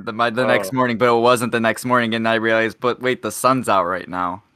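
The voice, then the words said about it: Flat monotone delivery. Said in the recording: “I know I'm sounding very monotone.”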